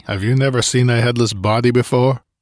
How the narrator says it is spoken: Conan asked testily

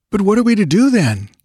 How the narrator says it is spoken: asked Balthus uneasily

